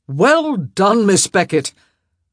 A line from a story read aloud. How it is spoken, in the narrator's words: she heard him shout out